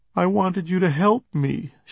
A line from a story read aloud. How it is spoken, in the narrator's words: she said between moans